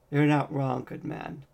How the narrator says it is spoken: Rat said cheerfully

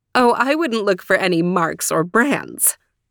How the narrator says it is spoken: said laughing

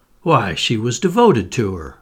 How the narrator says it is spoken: I exclaimed

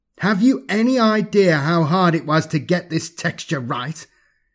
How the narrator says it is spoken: demanded indignantly

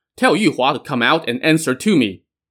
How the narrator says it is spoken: he shouted

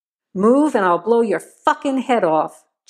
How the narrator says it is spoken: Joe growled menacingly

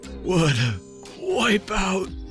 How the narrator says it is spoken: He cried back

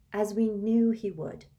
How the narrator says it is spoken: she sighed

